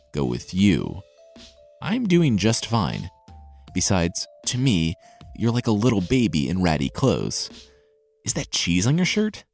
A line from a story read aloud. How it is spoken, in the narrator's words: The tailor chuckled